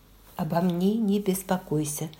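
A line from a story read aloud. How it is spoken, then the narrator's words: Plain. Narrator (Russian): сказала я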